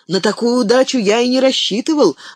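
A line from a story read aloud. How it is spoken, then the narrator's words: Spontaneous exclamation. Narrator (Russian): воскликнул непосредственный Пиппин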